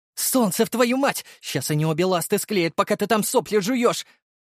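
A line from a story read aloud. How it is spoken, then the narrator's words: Barked shout. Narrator (Russian): гаркнула Дарья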